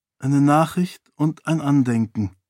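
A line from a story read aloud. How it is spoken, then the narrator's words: Sad voice. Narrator (German): erklärte Karata mit trauriger Stimme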